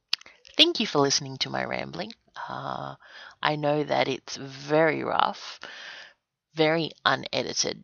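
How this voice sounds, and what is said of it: Australian accent. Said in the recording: “If you can listen to my accent, you'll realize that I'm from Australia”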